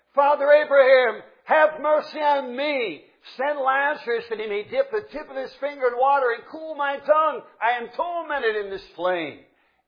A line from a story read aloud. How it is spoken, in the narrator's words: he cried and said